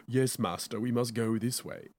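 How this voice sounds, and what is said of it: Mock British accent. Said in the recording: “he has a British accent ... why do you have a British accent?”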